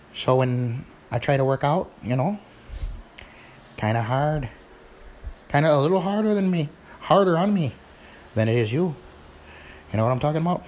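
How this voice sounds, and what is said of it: Put-on Irish accent, not very good. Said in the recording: “that was my Irish accent. It's kind of needs a little work.”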